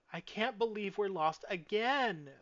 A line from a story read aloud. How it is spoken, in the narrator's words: Misty whined